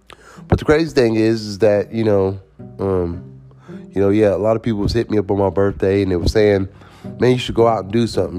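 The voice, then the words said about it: Slightly sick, sore-throat voice. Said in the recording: “I sound a little sick ... I have like a sore throat”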